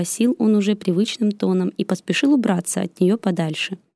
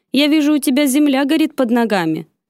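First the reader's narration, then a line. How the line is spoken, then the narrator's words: Accusing tone. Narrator (Russian): обвиняющим тоном произнес он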